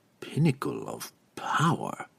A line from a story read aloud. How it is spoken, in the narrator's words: he whispered aloud